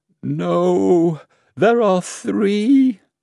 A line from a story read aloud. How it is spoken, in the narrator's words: the minister cried, tears flowing from his face